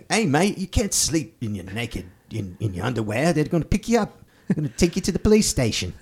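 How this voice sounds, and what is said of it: Put-on New Zealand-English style accent. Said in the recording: “That's an excellent Australian accent. ... No, it's a South African accent. ... I'm going for a little bit like New Zealand / English. ... I'm not that great at doing accents.”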